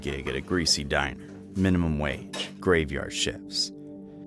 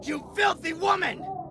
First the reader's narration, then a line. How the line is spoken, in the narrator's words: Henry yelled